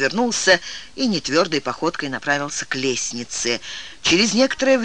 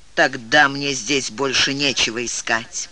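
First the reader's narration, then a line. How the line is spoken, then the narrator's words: Angry growl. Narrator (Russian): сердито прорычал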